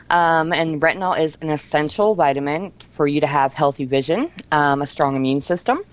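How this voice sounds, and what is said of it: Slightly out of breath. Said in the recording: “a little bit out of breath”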